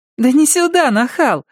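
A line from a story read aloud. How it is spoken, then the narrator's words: Laughing loudly. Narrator (Russian): Мэри расхохоталась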